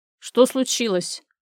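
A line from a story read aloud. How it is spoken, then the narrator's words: Stern question. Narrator (Russian): строго переспросил он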